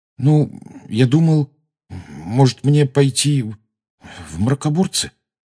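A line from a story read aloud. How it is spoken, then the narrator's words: Mumbled. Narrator (Russian): промямлил Гарри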